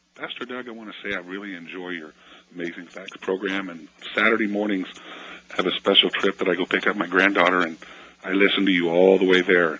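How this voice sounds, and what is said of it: Hoarse voice from laryngitis. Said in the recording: “Forgive my voice. I have a little bit of laryngitis”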